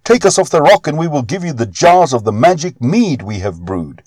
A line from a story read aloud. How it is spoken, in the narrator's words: Fialar and Halar cried out